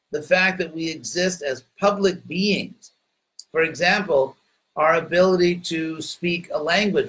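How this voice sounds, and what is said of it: Heavy American English accent. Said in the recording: “Some of you may think with a very heavy American accent. But since I'm an American”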